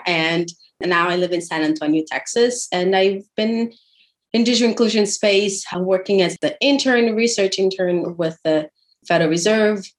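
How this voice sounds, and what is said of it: Brazilian accent. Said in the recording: “I am originally from Brazil. That's the fun accent you hear there.”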